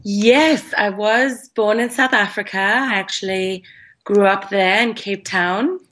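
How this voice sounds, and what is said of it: Refined Cape Town South African accent. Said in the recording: “I can still hear a little bit of your accent comes through every now and then ... We can hear the Cape Town, because that's definitely not a Joburg accent. It's a little bit more refined ... you can probably hear some English influence in the accent as well”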